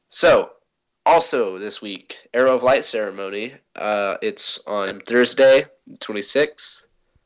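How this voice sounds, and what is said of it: Sick-sounding voice. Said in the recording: “Sorry for my voice, ... I'm kind of sick.”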